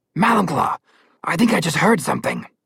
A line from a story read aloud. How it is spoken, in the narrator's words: it growled